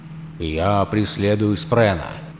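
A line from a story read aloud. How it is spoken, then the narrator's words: Quiet speech. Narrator (Russian): негромко проговорил Долинар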